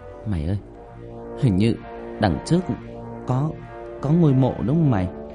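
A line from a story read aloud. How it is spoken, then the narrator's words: Trembling voice. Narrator (Vietnamese): bạn Linh giọng run run nói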